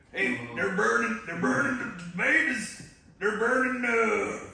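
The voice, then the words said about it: Imitates another person's voice. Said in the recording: “if you say it in Alex Jones' voice”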